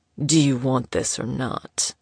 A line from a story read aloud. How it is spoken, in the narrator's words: he growled